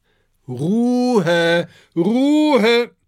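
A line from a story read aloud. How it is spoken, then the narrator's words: Calling out. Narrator (German): ruft Cornelius Cactus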